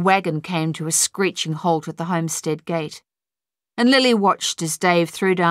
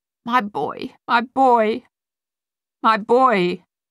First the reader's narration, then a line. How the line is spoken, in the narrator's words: GW sobbed